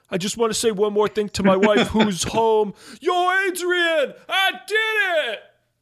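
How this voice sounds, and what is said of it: Imitates a movie character's voice. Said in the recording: “It was a very bad impression. ... I felt like I was watching the movie there for a minute.”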